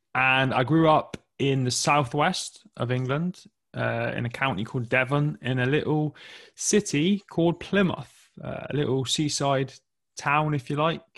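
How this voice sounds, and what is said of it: English accent. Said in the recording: “you can probably tell from my accent that I'm from England”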